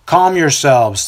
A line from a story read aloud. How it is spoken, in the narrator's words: the priest yells out